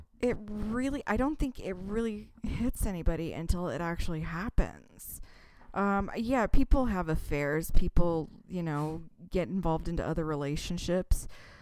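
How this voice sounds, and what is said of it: Shaky, emotional voice. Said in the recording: “hear the tone in my voice. It's a little shaky”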